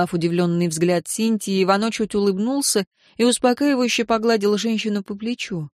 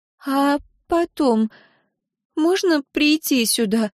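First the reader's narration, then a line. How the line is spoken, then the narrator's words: Timid question. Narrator (Russian): спросила Синтия робко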